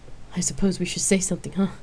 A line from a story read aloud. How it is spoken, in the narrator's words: asked with a chuckle and let out a nervous breath